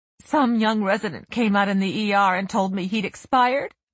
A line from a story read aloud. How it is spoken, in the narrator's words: Sherry sobbed